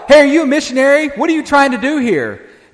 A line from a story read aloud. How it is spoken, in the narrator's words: one of the students yelled out